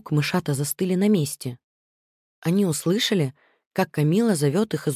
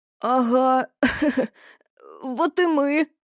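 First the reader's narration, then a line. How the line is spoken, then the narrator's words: Squeaky. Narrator (Russian): пискнул Макси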